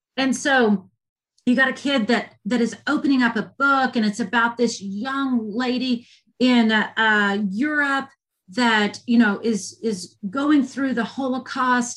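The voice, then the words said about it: Southern American accent. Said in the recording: “You know it by listening to me. I'm a Southern girl. I have a Southern accent.”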